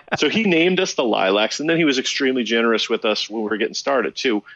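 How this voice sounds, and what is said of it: Usual voice. Nothing is said of it.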